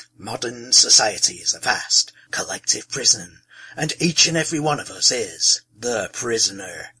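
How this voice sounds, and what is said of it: Exaggerated American movie-trailer accent. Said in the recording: “I just can't do an American accent without it sounding like a trailer for a Batman movie.”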